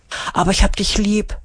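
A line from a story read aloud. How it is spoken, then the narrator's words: Whisper. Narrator (German): flüstert sie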